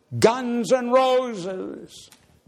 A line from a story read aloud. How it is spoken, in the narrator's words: A voice cries out